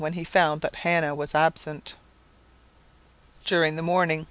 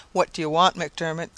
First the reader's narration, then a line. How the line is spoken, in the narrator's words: she said sullenly